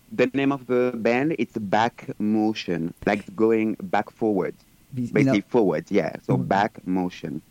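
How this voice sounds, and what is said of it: Speaks with a foreign accent. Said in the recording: “you have an accent ... These are people with an accent”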